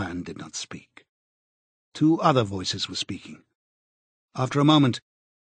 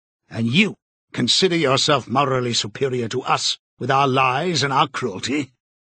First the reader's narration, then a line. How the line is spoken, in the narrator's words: said more harshly